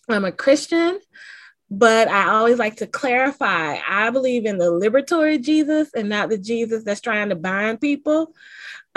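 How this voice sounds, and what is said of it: Southern US twang. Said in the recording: “I am a Southerner ... you probably can hear the twang in my voice.”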